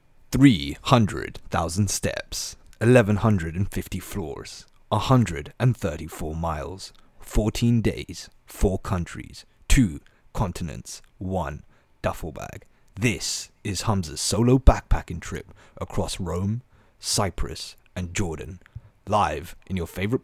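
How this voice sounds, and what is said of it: Dramatic cinematic trailer narrator voice. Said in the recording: “I'm trying to do the voice ... do the cinematic voice”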